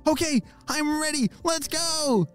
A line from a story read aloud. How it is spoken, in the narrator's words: shouted Ollie